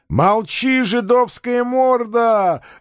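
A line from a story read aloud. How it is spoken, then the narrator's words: Gleeful shout. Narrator (Russian): радостно закричал губатый атаман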